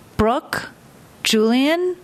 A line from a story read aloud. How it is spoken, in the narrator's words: said both their names slowly and with the sort of smile that gave Brooke chills